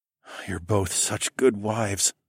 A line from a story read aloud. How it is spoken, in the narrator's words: I groaned